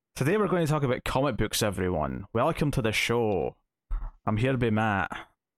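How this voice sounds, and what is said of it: Slight Scottish accent. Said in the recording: “your still slight accent that after almost 10 years, still not used to ... way thicker Scottish accent than yours. So that's why I say slight.”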